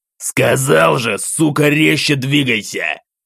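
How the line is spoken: Savage snarl, man. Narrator (Russian): зарычал вмиг озверевший мужчина

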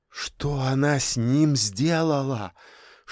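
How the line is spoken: Whispered question. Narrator (Russian): шепотом спросила Марина

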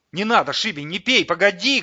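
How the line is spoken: Shouting. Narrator (Russian): крикнул Улисс

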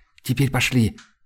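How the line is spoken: Breathless exhale. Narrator (Russian): выдохнула Айлани

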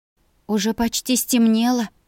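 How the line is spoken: Uncertain whisper. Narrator (Russian): неуверенно шепнула я

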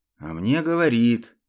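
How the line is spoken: Grumbled. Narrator (Russian): буркнул Свен

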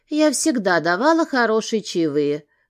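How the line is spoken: Calm answer. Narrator (Russian): спокойно ответила

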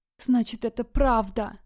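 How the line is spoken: Hateful whisper. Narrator (Russian): прошептала Полина, чувствуя, как все ее тело наполняет густая тягучая ненависть к этому человеку

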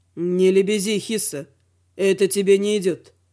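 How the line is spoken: Grim smirking remark. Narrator (Russian): мрачно усмехнувшись, заметил Велор

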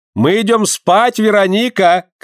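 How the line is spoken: Shout. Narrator (Russian): крикнула она

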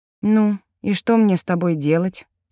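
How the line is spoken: Tired question. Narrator (Russian): устало спросила

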